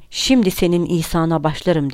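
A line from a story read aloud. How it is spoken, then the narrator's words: Grumbled. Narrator (Turkish): diye homurdandı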